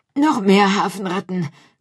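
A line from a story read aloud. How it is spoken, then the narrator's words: Panting. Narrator (German): keuchte er Pomme de Terre zu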